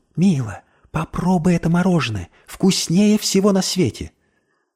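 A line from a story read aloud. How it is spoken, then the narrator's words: Whisper. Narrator (Russian): шепнул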